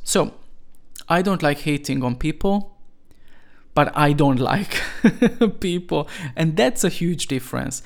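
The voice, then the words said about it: Non-native English accent. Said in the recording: “People like criticizing me for my pronunciation ... I was not born in England or the USA, and I needed to learn the language ... I'm always going to have this accent”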